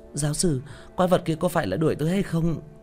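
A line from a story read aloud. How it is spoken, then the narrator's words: Frightened question. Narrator (Vietnamese): Thanh niên đeo mắt kính sợ hãi hỏi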